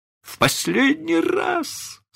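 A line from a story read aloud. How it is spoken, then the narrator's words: Moaning. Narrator (Russian): стонал мистер Дарлинг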